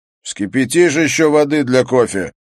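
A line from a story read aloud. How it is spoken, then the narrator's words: Loud question. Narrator (Russian): громко спросил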